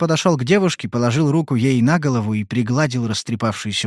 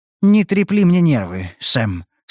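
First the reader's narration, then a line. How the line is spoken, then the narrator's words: Sad. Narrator (Russian): сказала она грустно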